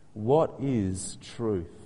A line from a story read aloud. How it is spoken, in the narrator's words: Pilate asked